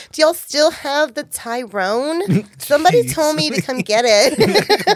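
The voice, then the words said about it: Put-on white girl voice. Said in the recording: “I have to do my white girl voice.”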